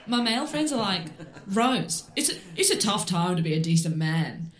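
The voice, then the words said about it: Imitates another person's voice. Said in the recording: “I'm going to do my best impression of Rose Matafeo.”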